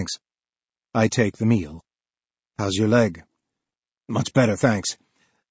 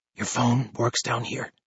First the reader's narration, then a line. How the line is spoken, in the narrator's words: He whispers